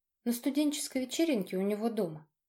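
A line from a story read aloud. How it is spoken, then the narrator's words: Calm reply. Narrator (Russian): спокойно ответила Ева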